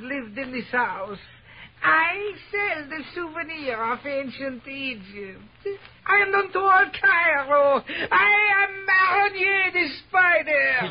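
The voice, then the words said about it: Foreign accent, not Arab. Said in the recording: “You're not an Arab either with that accent.”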